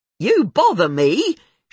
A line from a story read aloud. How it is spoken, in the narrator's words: she'd occasionally yell